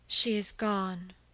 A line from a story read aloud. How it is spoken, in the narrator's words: said Millarca with a sigh